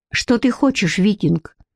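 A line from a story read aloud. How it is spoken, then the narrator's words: Sharp, hiding embarrassment. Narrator (Russian): резко спросила Бренна, пытаясь скрыть смущение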